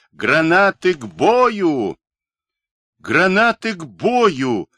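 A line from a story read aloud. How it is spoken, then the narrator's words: Ringing, dashing shout. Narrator (Russian): со звенящей лихостью закричал и Миша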